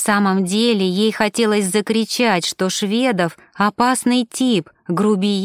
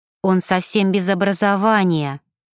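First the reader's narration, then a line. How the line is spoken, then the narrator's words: Through clenched teeth. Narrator (Russian): процедила Ева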